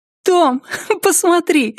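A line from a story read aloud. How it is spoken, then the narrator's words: Laughing. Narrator (Russian): смеясь, она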